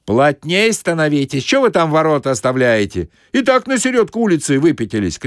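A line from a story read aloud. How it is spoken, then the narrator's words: Shout from behind. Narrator (Russian): крикнули сзади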